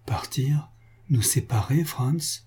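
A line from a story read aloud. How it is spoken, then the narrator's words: Broken murmur. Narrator (French): murmura Antoine d'une voix brisée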